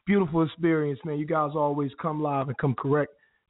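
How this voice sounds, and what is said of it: Weak, recovering voice. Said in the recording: “I'm a bit under the weather ... My voice is coming back”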